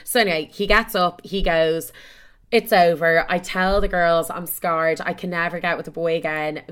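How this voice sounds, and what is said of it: Usual voice. Nothing is said of it.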